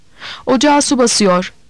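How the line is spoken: Shouted to others. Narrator (Turkish): diye bağırdım onlara

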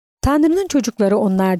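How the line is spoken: Plain. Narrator (Turkish): dedi Salvatore

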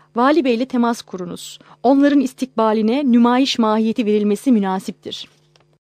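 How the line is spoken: Loud, serious, commanding. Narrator (Turkish): Sonra yüksek sesle, ciddi ve emir tonunda

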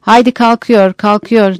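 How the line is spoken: Assistant shouting. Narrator (Turkish): diye bağıran yardımcı

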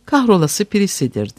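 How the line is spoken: Plain. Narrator (Turkish): dedi

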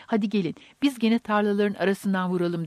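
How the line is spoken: Crying out. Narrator (Turkish): diye haykırdı

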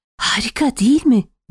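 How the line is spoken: Whispering. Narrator (Turkish): diye fısıldadı

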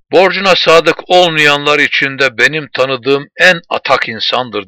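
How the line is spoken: Plain. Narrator (Turkish): dedi Setok

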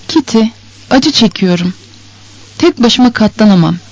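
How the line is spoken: Despairing voice. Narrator (Turkish): dedi umutsuz bir sesle

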